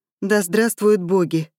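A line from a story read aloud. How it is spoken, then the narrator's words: Relieved sigh. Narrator (Russian): облегченно вздохнула Марья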